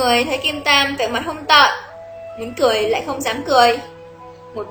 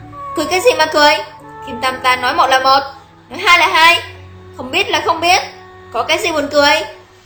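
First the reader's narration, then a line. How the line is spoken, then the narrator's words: Angry shout. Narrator (Vietnamese): Thấy mọi người cười càng lớn, đứng dậy quát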